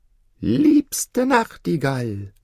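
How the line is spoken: Very loud call. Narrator (German): rief die kleine Köchin ganz laut

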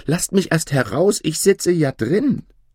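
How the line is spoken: Frightened high-voiced call. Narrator (German): Da ward dem Daumerling Angst, daß er mit heller Stimme rief

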